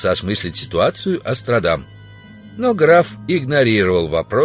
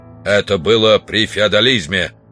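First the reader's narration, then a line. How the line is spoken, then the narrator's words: Sharp interruption. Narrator (Russian): резко оборвал его граф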